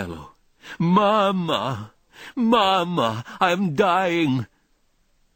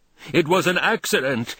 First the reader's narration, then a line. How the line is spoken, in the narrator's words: I bellow back